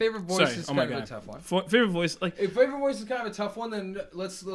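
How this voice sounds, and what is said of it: Usual voice. Nothing is said of it.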